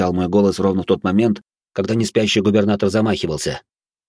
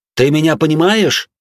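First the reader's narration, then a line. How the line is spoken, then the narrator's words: Loud shout. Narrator (Russian): громко крикнул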